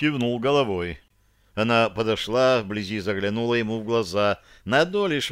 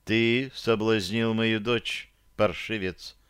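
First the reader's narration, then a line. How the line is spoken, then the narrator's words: Quiet. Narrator (Russian): сказала она тихо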